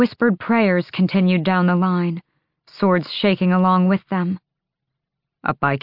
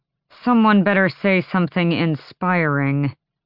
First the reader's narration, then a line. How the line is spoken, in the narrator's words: Fenris said through gritted teeth